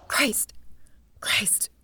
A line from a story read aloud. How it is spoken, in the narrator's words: Her heart began to pound, and her fingers snatched at her hair, checking it, and she whispered